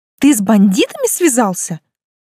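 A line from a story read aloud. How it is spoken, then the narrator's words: Alarmed exclamation. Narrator (Russian): воскликнула, вспомнив кипы прочитанных детективов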